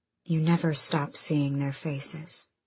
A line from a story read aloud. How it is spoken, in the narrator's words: Aelin Galathinius said quietly